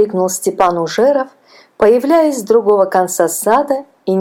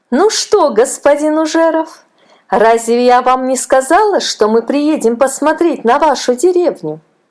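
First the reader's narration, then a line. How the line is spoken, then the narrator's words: Ringing, capricious exclamation. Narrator (Russian): воскликнула она знакомым ему звонким голосом, в котором слышались капризные нотки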